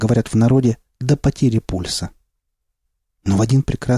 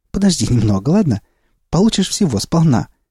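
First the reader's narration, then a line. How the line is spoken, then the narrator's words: Cheerful retort. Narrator (Russian): Веселым голосом осадила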